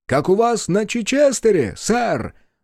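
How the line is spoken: Ringing, suppressed mirth shout. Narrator (Russian): звонким от сдерживаемого веселья голосом выкрикнул кто-то с места

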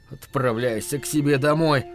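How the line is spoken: Hoarse wheeze. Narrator (Russian): просипел он

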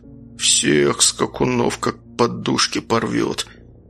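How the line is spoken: Muttered through closed lips. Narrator (Russian): процедил Рагнар, не открывая рта

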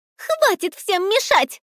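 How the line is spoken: Shrill squeal. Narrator (Russian): Взвизгнула мышь

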